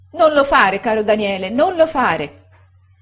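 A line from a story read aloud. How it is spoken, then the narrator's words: Moved, shouting woman. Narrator (Italian): gridava commossa la signora Gummidge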